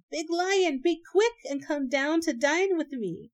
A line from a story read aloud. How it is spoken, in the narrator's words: The little hare, who had taken refuge within, called out again